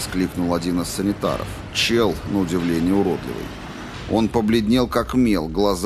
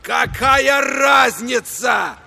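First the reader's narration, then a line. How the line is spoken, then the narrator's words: Roaring. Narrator (Russian): проревел Гангли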